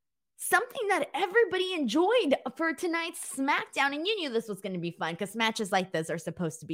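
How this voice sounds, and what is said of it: Usual voice. Nothing is said of it.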